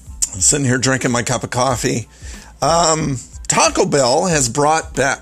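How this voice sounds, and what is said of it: Rough, old-sounding morning voice. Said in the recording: “I've got the old man voice going on. Sorry about that.”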